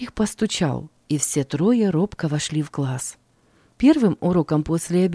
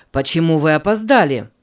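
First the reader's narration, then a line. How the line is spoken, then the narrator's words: Stern teacher asking. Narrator (Russian): строго спросил учитель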